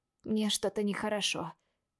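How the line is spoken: Weak voice. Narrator (Russian): говорю слабым голосом

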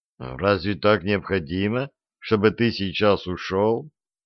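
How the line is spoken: Sad question. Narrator (Russian): грустно спросил он

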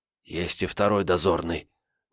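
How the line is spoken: Nervous whispered warning. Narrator (Russian): нервным шепотом предупредил Альбрехт

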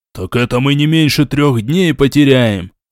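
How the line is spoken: Displeased wail. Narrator (Russian): недовольно взвыл Ренуальд

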